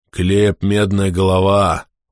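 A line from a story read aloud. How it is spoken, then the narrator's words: Breathed out. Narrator (Russian): выдохнул Скули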